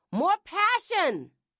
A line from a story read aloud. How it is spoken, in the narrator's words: Linda Love, the director, yelled